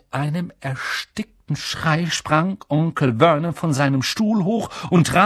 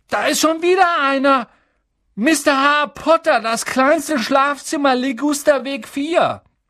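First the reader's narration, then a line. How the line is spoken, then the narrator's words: Calling out. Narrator (German): rief er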